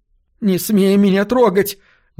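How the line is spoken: Shrill shriek. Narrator (Russian): взвизгнула она

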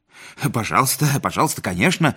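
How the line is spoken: Muttering. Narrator (Russian): забормотал Седловой

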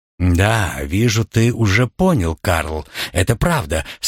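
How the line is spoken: Plain. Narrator (Russian): сказала Роза

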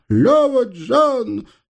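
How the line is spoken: Terrible scream drowned by fire. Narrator (Russian): страшно закричал на средин, но его голос потонул в грохоте и треске пламени

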